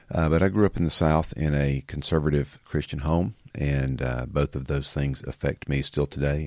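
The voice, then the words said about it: Country Southern US accent. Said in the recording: “I grew up in the South, in case you can't tell by my country fried accent.”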